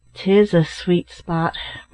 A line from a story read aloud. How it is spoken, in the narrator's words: remarked his uncle, in a low, sad tone